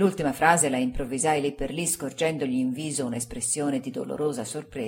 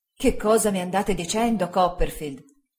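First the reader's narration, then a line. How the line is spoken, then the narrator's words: Exclaiming. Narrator (Italian): esclamò il signor Spenlow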